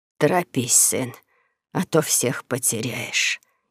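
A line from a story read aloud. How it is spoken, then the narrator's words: Barely audible rasp. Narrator (Russian): едва слышно прохрипела она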